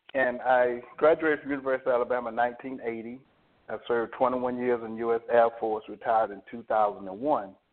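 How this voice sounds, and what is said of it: Southern Alabama accent. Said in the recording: “I'm from Alabama. You can probably pick up my accent.”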